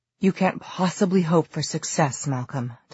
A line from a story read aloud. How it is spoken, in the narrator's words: Diana gasped